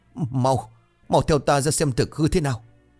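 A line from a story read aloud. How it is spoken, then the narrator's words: Panicked loud shout. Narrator (Vietnamese): lão tức hoảng hốt miệng hét lớn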